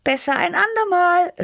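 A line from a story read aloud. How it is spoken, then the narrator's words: Calling out. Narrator (German): rief ich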